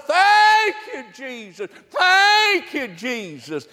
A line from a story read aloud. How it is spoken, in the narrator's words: she was in the front yard throwing those three $20 bills up in the air, hollering